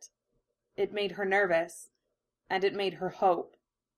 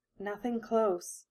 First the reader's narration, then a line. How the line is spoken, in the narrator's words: she whispered